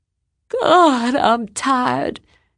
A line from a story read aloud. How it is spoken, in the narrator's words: said aloud, yawning